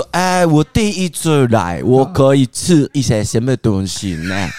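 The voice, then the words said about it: Slowed-down, put-on foreigner speech. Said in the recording (Chinese): “假装就演一个不是我的角色 ... 讲话速度放慢”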